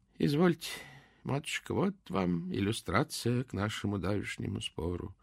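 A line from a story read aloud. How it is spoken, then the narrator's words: Said in an undertone. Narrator (Russian): вполголоса сказал помещица отец Мирокль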